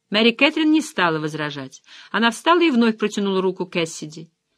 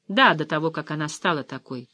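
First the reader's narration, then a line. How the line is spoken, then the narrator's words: Dry. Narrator (Russian): сухо сказала Клэр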